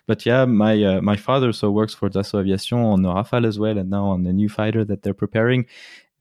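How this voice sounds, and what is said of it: Swiss accent with American traces. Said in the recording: “we can hear a little bit of Swiss accent in your voice, but we can hear as well a little bit of American accents”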